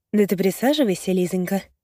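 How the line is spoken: Eerily calm. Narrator (Russian): пугающе спокойно произносит Марина

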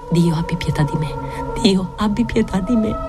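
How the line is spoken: Murmuring. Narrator (Italian): mormora

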